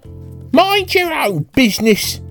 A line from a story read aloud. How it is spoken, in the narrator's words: shrieked Rat